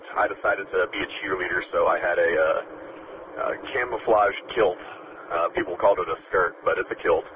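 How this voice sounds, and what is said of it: Slightly strained voice. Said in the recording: “cheered people on as loud as I could, so you can probably hear my voice is a bit strained today”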